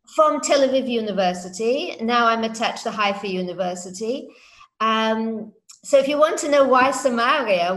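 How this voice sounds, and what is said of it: British English accent. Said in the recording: “judging by your accent, you're probably not a native born Israeli... my British English... The Queen's English”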